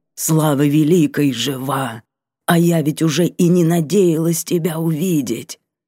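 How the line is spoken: Hoarse, trembling, breaking voice. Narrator (Russian): Хриплый голос, чуть заметно дрогнув, сорвался

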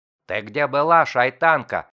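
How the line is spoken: Menacing roar. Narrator (Russian): Грозно проревел голос

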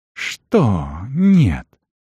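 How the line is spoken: Hiss. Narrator (Russian): прошипел он

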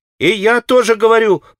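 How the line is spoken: Boy's sudden shout. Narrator (Russian): прокричал вдруг мальчик Смуров

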